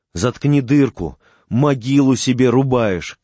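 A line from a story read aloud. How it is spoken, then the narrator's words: Shouting. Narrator (Russian): кричал Ковалев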